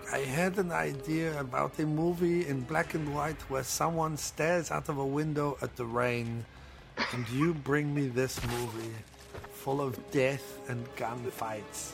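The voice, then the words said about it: Put-on accent. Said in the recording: “I don't know that Pepin had that accent. I'm just doing it.”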